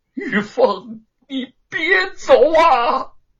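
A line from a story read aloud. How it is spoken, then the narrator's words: Heartbroken wailing. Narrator (Chinese): 他撕心裂肺的哭喊起来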